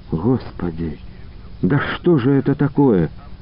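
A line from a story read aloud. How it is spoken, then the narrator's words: Frightened. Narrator (Russian): испуганно проговорила Анна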